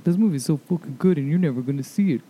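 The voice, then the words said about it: Imitates another person's voice. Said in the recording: “that's my impression of him. ... It's pretty good.”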